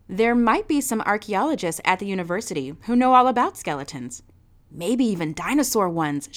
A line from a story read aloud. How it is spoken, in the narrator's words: she added in that excited parent voice